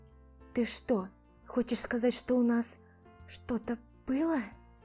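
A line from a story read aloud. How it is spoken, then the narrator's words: Involuntary whisper. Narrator (Russian): Мой голос сам собой сбился на шепот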